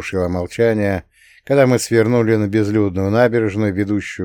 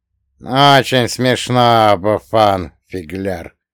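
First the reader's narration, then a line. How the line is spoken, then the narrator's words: Grumbling. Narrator (Russian): проворчал он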